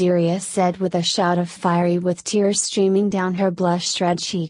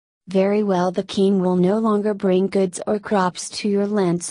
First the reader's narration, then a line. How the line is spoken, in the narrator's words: Lord Dermot said